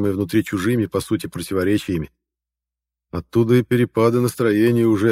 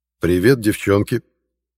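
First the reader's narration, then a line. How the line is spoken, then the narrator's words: Cheerful. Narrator (Russian): весело произнес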